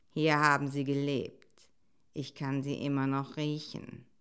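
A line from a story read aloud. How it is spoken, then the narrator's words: Quiet. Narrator (German): sagte er leise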